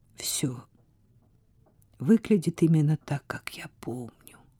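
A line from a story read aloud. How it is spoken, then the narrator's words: Quiet female voice. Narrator (Russian): тихо сказала она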